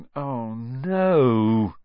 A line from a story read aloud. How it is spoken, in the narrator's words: groaned